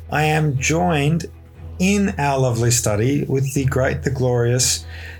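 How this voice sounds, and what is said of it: Scratchy, hoarse recovering voice. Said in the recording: “my voice sounds a bit scratchy, it's because I'm still recovering from having lost it”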